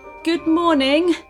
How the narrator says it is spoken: said the soldier, nervously

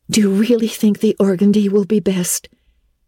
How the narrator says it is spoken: queried Anne anxiously

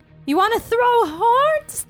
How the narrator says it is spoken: exclaim

